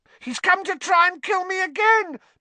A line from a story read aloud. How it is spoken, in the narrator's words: Pettigrew shrieked suddenly